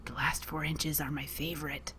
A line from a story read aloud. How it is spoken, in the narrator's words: Pete whispered